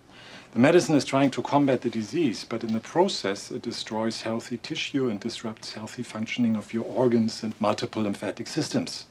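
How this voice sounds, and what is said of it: Very thick foreign accent. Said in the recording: “Your accent's very thick. ... You ever notice your accent makes things sound worse than they actually are? ... here I keep thinking you're gonna be torturing James Bond later.”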